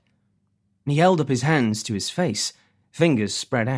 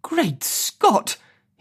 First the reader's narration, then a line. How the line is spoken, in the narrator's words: he cried